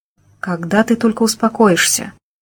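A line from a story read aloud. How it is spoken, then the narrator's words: Heavy sigh. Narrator (Russian): Он тяжело вздохнул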